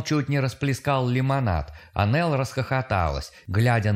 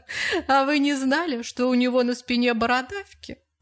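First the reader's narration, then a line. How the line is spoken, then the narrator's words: Laughing. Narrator (Russian): Она опять засмеялась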